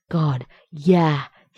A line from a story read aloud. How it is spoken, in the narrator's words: he said, gasping